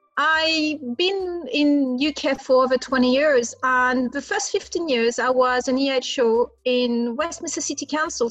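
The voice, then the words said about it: French accent in English. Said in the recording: “You will guess by my accent, I'm French.”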